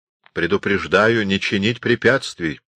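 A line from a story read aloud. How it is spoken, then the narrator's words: Plain. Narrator (Russian): сказал Анс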